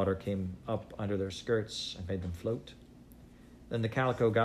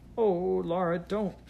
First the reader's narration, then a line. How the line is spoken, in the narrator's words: Mary cried